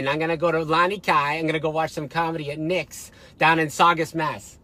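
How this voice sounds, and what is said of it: Exaggerated weird Boston accent, raised pitch. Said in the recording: “You sound like that's like a weird Boston accent. ... And you raised your voice up a little bit. You go, "Lonnie Kai." You turned Chinese.”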